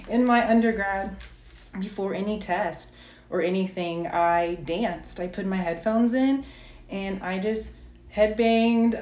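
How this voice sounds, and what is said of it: Breathless, out-of-breath speech. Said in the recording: “I'm so out of breath. Whew.”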